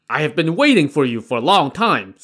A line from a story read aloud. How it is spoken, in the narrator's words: Sun Li shouted